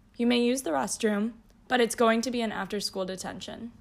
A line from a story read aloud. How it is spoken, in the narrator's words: Miss Spangenberg calmly replied